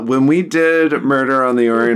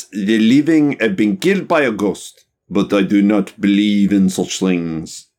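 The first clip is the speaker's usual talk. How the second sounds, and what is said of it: Put-on foreign accent. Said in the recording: “That is quite the accent ... one of the cast members husband was french and he said my accent was the best”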